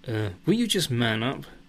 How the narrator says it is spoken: snaps Lisa

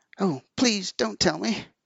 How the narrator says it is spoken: Caught by a gust of terror, Peter cried

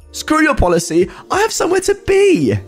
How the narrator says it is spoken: She barks back

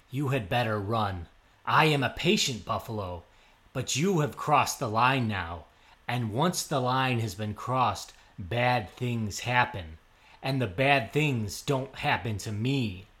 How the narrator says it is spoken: said Buffalo

